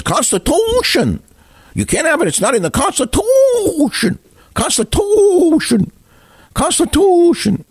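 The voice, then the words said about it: Squeaky mocking voice. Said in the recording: “squeaky voice.”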